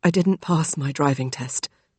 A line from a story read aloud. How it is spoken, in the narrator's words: Connor said quietly